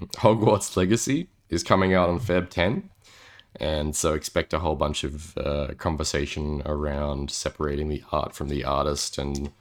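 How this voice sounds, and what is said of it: Strained, unusually deep voice. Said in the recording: “my voice is really gone wild with this... You're just getting even deeper... it just gets deeper as we go.”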